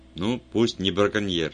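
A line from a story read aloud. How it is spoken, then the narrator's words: Sharp. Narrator (Russian): резко сказал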